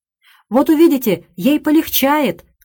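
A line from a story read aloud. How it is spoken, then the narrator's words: Calling after someone. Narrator (Russian): крикнула миссис Флашинг ему вдогонку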